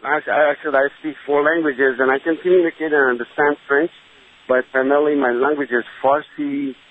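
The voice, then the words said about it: Foreign-accented English. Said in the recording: “mistaken because of an accent.”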